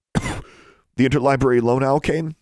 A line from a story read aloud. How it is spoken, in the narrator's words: she coughed